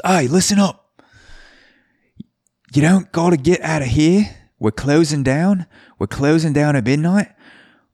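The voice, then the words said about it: Poor put-on Australian accent. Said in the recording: “my Australian accent, by the way, because it's going to be terrible”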